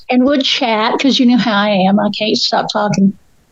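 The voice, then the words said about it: Southern Appalachian American accent. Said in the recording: “my southern accent can just get stronger and stronger ... my accent just gets flatter and flatter and more Appalachian”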